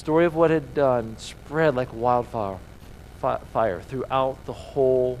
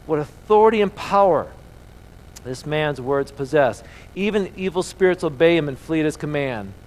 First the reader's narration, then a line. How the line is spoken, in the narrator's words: Amazed, the people exclaimed